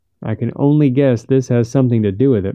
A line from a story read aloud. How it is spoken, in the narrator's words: Monterey said